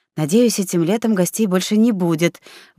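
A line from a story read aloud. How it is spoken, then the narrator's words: Breathy exhale. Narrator (Russian): выдохнула Мари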